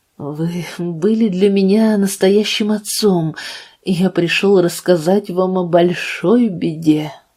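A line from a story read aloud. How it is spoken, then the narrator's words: Trembling voice. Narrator (Russian): начал он дрожащим голосом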